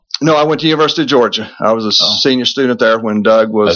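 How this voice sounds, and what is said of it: Virginia accent. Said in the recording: “I'm trying to put a finger on your accent there. ... I'm from Virginia, and you never lose this accent.”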